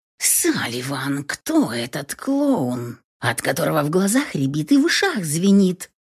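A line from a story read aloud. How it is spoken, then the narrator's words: Hissed. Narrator (Russian): Прошипела мне Кэтрин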